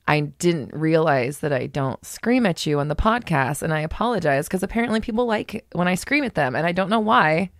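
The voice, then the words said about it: Subdued, calm radio-host delivery. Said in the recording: “I am more subdued generally ... my armchair voice, like this one right here ... the talk radio voice”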